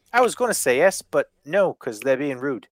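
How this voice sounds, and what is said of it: Weak put-on New Zealand accent. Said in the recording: “I don't do a fucking accent very well ... He's from New Zealand”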